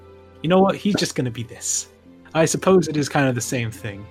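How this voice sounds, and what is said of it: Usual voice. Nothing is said of it.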